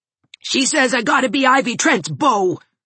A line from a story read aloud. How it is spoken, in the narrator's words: snarled Gerald